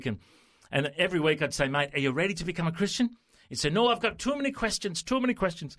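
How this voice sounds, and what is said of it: Put-on Scottish accent. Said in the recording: “You like my accent? ... he's Scottish now ... He's international.”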